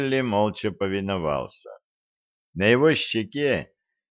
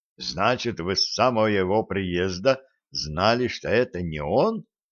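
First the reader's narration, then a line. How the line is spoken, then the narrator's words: Surprised question. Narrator (Russian): удивленным тоном спросил Куприянов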